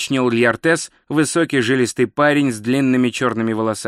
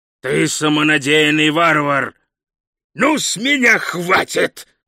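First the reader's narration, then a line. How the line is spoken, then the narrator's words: Growled. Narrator (Russian): прорычал Хрун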